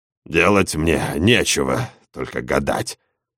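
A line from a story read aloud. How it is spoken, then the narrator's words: Grumbling. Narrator (Russian): проворчал Эдуардо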